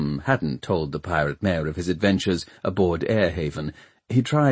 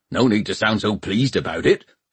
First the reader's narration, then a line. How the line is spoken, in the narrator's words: snarled Peavy